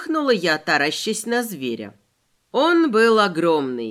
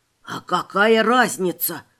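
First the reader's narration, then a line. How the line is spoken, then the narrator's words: Hissed. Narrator (Russian): зашипел на меня Вася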